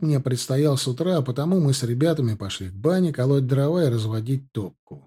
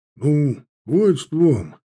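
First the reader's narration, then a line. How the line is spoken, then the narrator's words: Grumbling. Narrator (Russian): пробурчал Уткин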